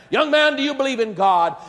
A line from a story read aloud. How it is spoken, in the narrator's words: fairly shouted in the face of the young man